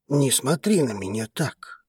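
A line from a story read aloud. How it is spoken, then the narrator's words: Whispered. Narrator (Russian): прошептал он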